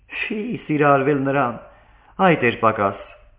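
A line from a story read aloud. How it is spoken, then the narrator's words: Calling out. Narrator (Armenian): կանչեց Վիկտորիան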